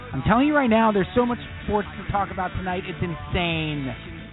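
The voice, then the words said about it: Exaggerated radio announcer voice. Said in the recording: “doing this voice, this radio guy voice”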